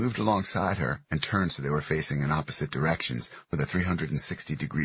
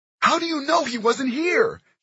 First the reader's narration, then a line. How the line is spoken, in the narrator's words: she shouted